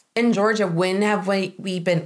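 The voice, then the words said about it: Southern accent slipping out. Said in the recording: “oh boy, Southern accent came out.”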